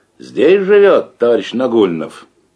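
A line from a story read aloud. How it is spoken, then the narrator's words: Loud, suppressing a smile. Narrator (Russian): еле сдерживая улыбку, Разметнов громко спросил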